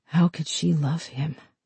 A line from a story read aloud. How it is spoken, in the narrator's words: Amanda asked